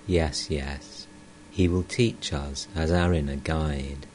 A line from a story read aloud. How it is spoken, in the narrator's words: Master tenderly